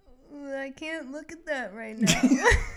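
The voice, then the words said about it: Imitates another person's voice. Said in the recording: “good impression”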